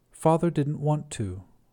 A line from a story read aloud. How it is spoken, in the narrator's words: I said